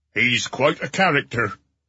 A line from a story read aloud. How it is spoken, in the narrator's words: he rumbled